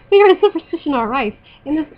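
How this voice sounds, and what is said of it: Put-on Irish accent. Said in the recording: “I could do the Irish accent. ... Oh, gosh, I can't say these words with an Irish accent.”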